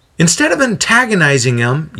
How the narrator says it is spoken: Yadea yells back

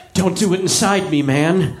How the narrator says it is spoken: Vince begged

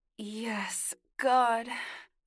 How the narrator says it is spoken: Eli groaned

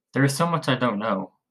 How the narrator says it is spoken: Miranda said in a sad tone

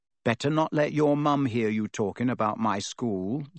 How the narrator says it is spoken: said Harry coolly

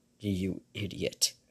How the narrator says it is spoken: lowly growled

